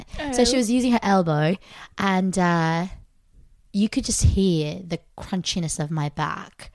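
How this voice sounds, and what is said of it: Put-on accent for a story. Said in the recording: “maybe for this story I'll have an accent ... that's the end of the accent”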